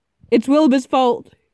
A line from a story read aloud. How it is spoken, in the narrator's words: he yelled